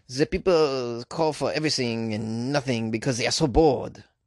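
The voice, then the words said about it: Put-on French accent. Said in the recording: “Is that a pretty good French accent?”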